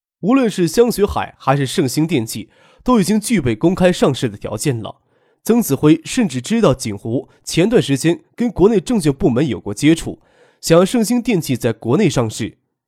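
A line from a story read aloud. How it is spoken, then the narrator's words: Laughing question. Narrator (Chinese): 曾子辉笑着问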